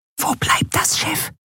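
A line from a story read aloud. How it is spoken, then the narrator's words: Whisper in ear. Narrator (German): flüsterte Nelen ihr ins Ohr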